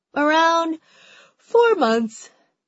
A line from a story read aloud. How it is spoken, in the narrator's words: Alisa says with a yawn